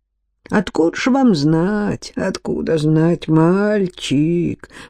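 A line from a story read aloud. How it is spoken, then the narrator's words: Muttering. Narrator (Russian): пробормотал Флей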